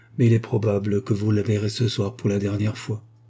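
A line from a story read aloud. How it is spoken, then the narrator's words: Lawyer, grave tone. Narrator (French): reprit l'avocat d'un ton grave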